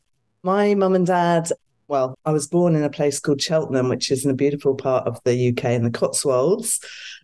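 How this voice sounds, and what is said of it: British accent. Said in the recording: “I'm a Brit, as you can probably hear from the accent.”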